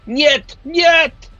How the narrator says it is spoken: the count, who shrieks out

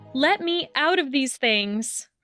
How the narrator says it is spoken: Hermione shouted, her eyes swollen with tears

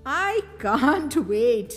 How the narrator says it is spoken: laughed Mum

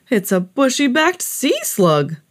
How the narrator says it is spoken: exclaimed

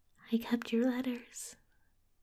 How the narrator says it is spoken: whispered

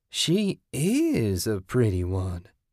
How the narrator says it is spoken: Kathy purred

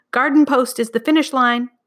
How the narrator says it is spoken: cried

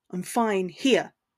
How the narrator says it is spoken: he snapped, his tone harsher than he'd intended

